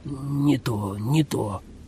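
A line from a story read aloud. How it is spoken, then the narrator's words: Mutter. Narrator (Russian): пробормотал Джозеф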